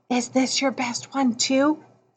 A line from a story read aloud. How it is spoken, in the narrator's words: whispered